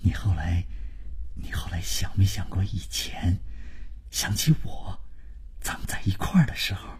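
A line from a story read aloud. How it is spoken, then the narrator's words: Low, sentimental voice. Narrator (Chinese): 万征就是开始煽情，他压低了声音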